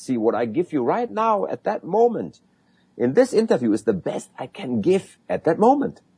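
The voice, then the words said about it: Non-native English accent. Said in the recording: “You can hear that I have an accent. You can hear that my English is not perfect”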